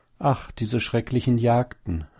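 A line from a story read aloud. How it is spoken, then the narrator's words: Sigh. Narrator (German): seufzte die Häsin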